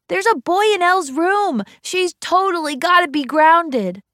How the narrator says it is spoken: he was yelling

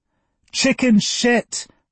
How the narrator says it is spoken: Thelma yelled

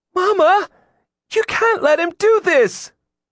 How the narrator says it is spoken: Jillian wailed

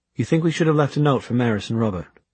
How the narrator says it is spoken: Alec laughed dryly

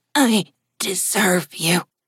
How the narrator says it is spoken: Haley said in a rasping voice, her whole head bobbing with each breath

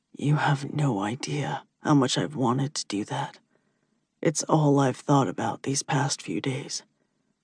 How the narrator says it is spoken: He mutter

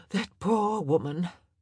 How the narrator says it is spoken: Portia said, her sigh dramatic

